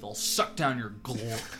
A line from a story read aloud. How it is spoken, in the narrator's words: Matt just begrudgingly said through his teeth